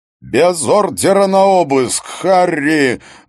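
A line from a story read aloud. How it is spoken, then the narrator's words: Bellowed very loudly. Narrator (Russian): Гуннар Хаген орал так громко, что Харри приходилось держать телефон на расстоянии от уха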